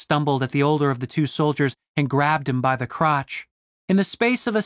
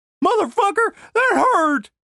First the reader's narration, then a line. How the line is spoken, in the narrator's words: cried Denise